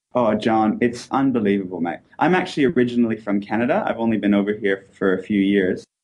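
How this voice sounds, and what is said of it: Mixed Canadian-Australian accent. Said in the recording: “he's like a hybrid Canadian-Australian ... my accent's terrible ... I've just got a big mesh of everything”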